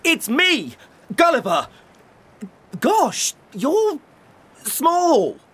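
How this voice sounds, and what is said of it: Shouting loudly. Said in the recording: “why are you shouting?”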